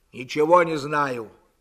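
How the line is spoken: Angry. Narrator (Russian): сердито сказал Длугач

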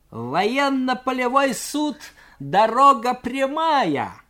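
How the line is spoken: Mocking shout, cadet. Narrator (Russian): с усмешкой крикнул юнкер

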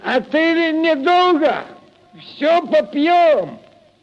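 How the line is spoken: Drunken shout after them. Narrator (Russian): Захмелевший Прохор крикнул вслед им

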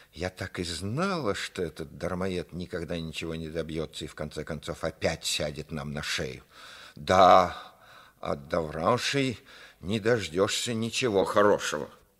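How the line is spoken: Furious hiss. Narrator (Russian): Мать, вдруг разъярившись, зашипела

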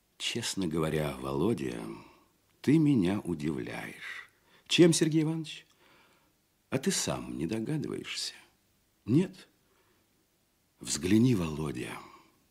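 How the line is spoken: Quiet and worried. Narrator (Russian): тихо и озабоченно говорил Казачок

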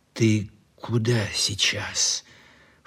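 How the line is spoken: Low-voiced question. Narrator (Russian): вполголоса спросил Лихонин

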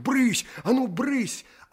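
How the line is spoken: Boy shouting, shooing cats. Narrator (Russian): паренек кричал на них, как на кошек

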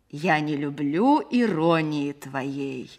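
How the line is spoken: Affected thick voice, laughing. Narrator (Russian): сказал актер нарочитым жирным голосом плохого чтеца и рассмеялся

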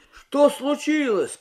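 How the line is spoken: Confused shout. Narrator (Russian): крикнул Юрий, ничего не понимая

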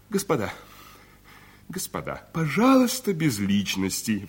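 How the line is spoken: Exclaiming. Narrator (Russian): воскликнул Николай Петрович

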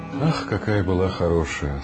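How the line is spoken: Sad mother speaking. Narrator (Russian): сказала мамаша, печально

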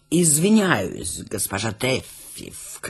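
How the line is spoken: Ingratiating question. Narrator (Russian): вкрадчиво спросил он

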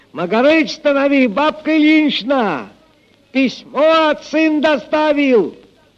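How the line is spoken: Shout from afar. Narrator (Russian): Прохор, еще издали крикнул

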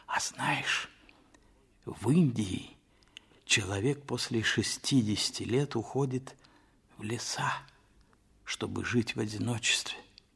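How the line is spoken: Sympathetic whisper. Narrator (Russian): Толстой сочувственно сказал почему-то шепотом

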